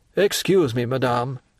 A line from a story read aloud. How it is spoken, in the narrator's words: said Debray coldly